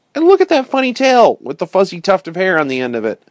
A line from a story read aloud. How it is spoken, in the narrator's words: exclaimed Ernest